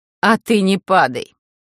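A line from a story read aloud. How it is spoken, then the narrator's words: Snorting advice. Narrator (Russian): фыркнув, посоветовала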